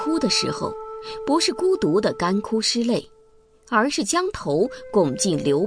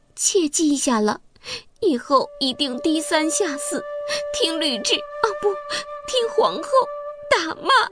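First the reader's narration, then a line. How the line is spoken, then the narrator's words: Meek, tearful wailing. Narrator (Chinese): 戚夫人乖顺地哭出花腔说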